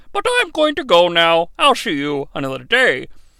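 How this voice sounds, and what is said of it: Imitated Bane character voice. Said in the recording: “to do a Bane voice”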